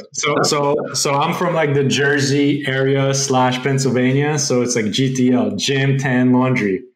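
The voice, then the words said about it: New Jersey / Pennsylvania accent. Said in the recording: “That explains the accent there.”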